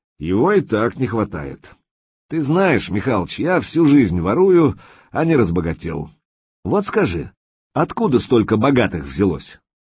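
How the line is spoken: Snorted. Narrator (Russian): Лис хмыкнул

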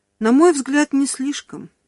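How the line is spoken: Sighing. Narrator (Russian): вздохнула Раух

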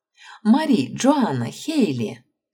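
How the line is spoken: Laughing greeting. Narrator (Russian): смеясь, поприветствовала девушек Аманда

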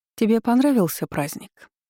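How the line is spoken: Polite society tone. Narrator (Russian): Светским тоном поинтересовалась герцогиня

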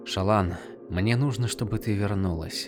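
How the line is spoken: Gentle. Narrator (Russian): мягко произнес Хиларан

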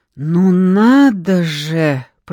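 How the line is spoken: Drawling. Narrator (Russian): протянула Антонина Васильевна

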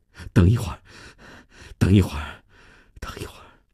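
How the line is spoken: Out of breath. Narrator (Chinese): 米娜停下来喘了口气

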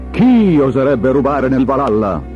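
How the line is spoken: Thundering king's voice. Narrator (Italian): tuonò Odino, re degli dei

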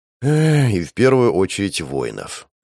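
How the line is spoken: Agreeing sigh. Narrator (Russian): вздохнул, соглашаясь с приятелем

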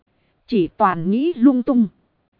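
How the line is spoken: Smiling. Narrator (Vietnamese): mỉm cười nói

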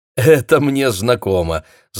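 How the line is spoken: Laughing. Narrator (Russian): засмеялся Сонни

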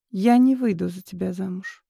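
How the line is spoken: Quiet reply. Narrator (Russian): тихо ответила Катя

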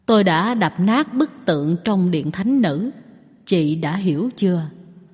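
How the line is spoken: Soft laughing speech. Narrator (Vietnamese): Phạn Già La cười khẽ nói

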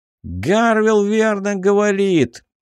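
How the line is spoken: Shout from crowd. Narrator (Russian): выкрикнул кто-то из толпы

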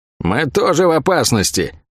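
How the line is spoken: Irritated grumbling. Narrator (Russian): С некоторым раздражением из-за этой остановки проворчала Лавиане

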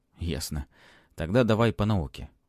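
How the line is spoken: Sighing. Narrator (Russian): вздохнул Матвей

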